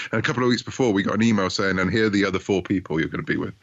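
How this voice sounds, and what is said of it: British accent. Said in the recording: “I'm a Brit, as you might gather from my accent”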